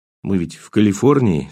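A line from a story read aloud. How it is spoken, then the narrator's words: Unsteady voice. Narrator (Russian): сказал я все еще нетвердым голосом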